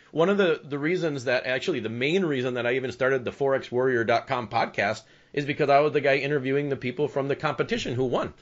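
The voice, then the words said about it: Smooth radio DJ voice. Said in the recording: “You've got that DJ voice ... it's just a really cool DJ voice.”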